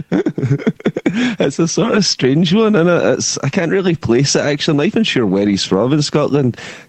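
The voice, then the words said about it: Glasgow Scottish accent. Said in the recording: “I've got a bit of a scumball Glasgow accent”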